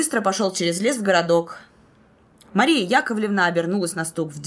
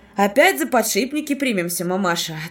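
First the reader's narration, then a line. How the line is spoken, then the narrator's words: Plain. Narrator (Russian): ответил Артем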